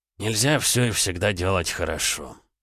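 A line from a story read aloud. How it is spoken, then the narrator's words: Gruff mutter. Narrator (Russian): буркнул Макс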